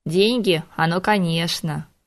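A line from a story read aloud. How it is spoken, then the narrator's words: Snorting. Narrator (Russian): хмыкнул Хок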